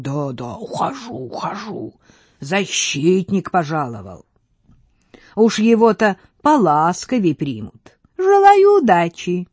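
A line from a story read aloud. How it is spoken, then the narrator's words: Mocking laugh, then hiss. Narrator (Russian): издевательски расхохотался и прошипел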